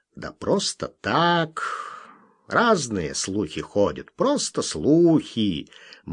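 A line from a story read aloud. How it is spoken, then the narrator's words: Mysterious meaningful mutter. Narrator (Russian): многозначительно и таинственно пробормотал Солтман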